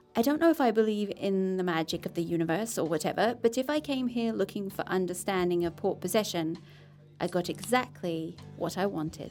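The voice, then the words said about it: English accent. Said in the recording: “And Australian? ... No, English.”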